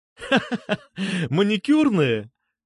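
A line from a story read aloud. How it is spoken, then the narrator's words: Asking back, laughing. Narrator (Russian): переспросил я и засмеялся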